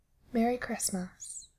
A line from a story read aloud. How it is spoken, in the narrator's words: he says softly